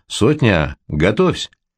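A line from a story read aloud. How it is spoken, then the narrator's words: Short quiet command. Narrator (Russian): говорит Гамалей, и коротко, негромко командует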